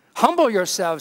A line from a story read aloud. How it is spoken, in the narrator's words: he says